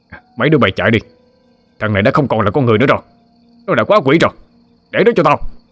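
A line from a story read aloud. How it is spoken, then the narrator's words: Urgent shout. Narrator (Vietnamese): Ông ta ngoái đầu lại la lên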